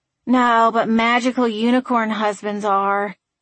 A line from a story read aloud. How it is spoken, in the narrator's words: Frankie sighed